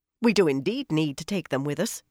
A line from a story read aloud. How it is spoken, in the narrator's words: she said in a cutting tone